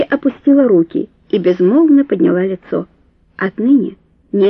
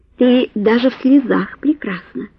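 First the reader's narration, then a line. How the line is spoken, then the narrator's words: Hoarse whisper. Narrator (Russian): хрипло прошептал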